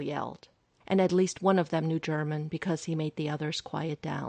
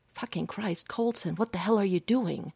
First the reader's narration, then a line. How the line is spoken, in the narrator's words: Hawkeye hissed in his ear, breathless from running